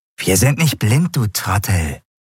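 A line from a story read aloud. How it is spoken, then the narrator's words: Hissed. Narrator (German): fauchte eine andere Stimme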